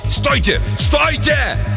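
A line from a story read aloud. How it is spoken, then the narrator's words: Shocked yell. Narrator (Russian): Хендриксу удалось выйти из оцепенения, и он заорал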